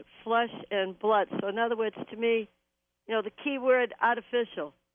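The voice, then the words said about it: Slight New York-area accent. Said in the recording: “it sounds like a little New Jersey or New York in there ... I'm originally from New England, so uh, the accent is still there.”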